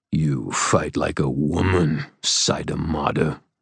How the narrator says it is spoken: Svangar snarled

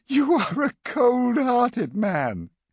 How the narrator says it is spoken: Jenny wailed

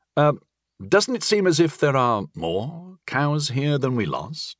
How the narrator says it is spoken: I asked hesitantly

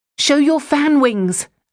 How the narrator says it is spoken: I shouted to Spanish

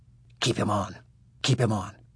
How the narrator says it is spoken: the sheriff whispered to Nancy

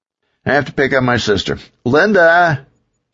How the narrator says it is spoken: Todd yelled

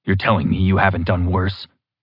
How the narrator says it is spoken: Clark rasped

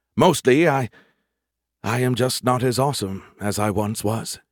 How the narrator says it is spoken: he sighed

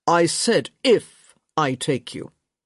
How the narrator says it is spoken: he said, his voice uncommonly stern

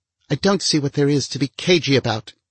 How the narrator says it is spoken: she snapped

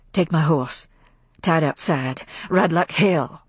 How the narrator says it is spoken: half-whispered words of Rhett

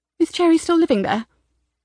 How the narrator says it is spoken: Her voice sounded tight, strangled

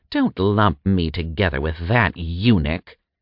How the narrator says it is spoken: Agras spat

